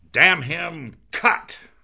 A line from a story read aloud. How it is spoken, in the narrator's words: roared Stubb